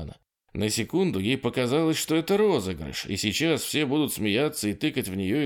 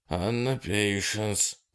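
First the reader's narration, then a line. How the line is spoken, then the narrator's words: Mutter. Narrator (Russian): пробормотал он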